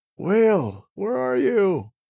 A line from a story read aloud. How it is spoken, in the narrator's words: Petey called out